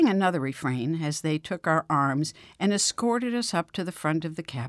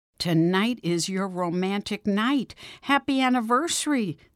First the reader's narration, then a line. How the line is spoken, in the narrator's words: shouted